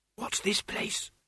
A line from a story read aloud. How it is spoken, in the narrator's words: she whispered